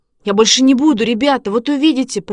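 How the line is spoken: Faltering babble. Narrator (Russian): пролепетал Шишкин

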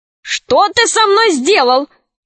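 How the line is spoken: Shouting king. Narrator (Russian): закричал король

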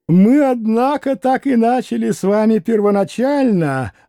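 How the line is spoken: Laughing reply. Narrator (Russian): отозвался, все продолжая смеяться Николай Парфенович

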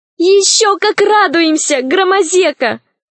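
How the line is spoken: Shouted. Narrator (Russian): закричала Алиса

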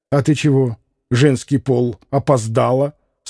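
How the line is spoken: Menacing question. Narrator (Russian): спросил грозно Красоткин

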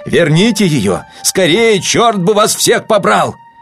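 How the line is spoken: Shouting. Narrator (Russian): Гронский не крикнул

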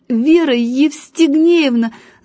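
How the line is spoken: Stuttering shout. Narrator (Russian): заикаясь, крикнул он

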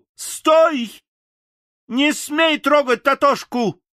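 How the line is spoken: Angry shout. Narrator (Russian): гневно закричала она

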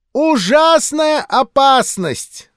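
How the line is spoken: Old woman wailing. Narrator (Russian): завопила старуха

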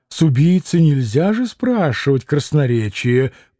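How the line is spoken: Sudden remark, twisted laugh. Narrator (Russian): прибавил он вдруг для чего-то и искривленно засмеялся

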